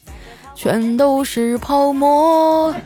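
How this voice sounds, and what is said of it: Quiet humming singing. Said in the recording (Chinese): “小声的哼唱了起来”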